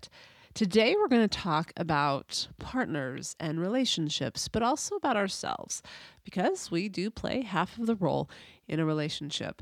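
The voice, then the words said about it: Nasal, congested voice. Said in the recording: “You can probably hear my voice is a little nasal, more than normal. I realize I am a little nasal already, but I'm just coming off the end of a cold.”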